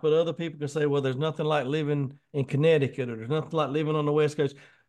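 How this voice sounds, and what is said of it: Southern American accent. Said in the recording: “I got the Southern accent. I'm a Southern boy”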